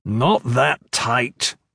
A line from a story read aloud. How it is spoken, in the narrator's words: he growled